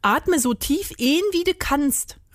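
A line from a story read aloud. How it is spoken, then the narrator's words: Called out. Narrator (German): rief Rudi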